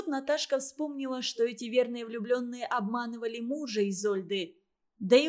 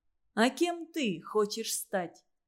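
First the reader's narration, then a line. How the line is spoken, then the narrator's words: Plain. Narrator (Russian): спросил он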